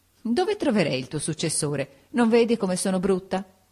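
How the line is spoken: Laughing after crying, asking. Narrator (Italian): Mitigato il pianto … subito ridendo mi domandò

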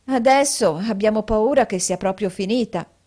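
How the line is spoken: Sighing together. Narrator (Italian): sospirarono

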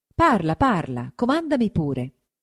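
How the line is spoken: Plain. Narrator (Italian): rispose Tonio

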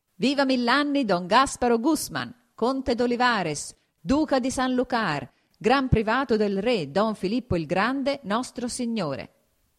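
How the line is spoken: Exclaimed. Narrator (Italian): esclamò

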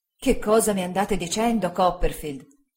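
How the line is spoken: Exclamation. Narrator (Italian): esclamò il signor Spenlow

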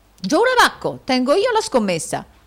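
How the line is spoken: Foolish nobleman's exclamation. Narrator (Italian): esclamò il nobile allocco

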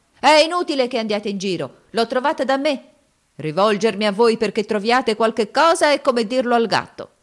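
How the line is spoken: Shouting. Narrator (Italian): gridava

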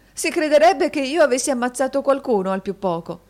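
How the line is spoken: Laughing exclamation. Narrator (Italian): esclamò la signorina Price con una risata

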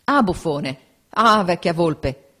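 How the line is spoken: Crowd exclaiming. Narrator (Italian): esclamavano nel campo avversario

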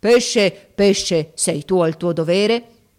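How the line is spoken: In a terrifying voice. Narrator (Italian): con voce terribile gli disse

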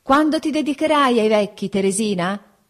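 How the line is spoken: Shouting to distant listener. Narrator (Italian): gridai, per essere inteso da lei, che m'era già lontana

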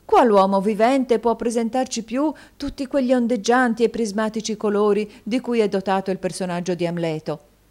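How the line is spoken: Exclaimed. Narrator (Italian): esclamò la signora Cardle

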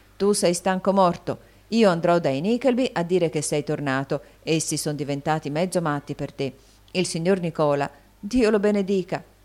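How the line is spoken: Exclamation. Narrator (Italian): esclamò Smike

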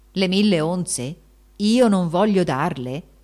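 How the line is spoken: Exclamation. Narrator (Italian): esclamò Giacomo

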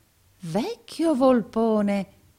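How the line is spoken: Exclamation. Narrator (Italian): esclamò il pari Verisoft

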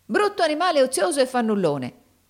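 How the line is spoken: Exclaimed. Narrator (Italian): esclamò la donna

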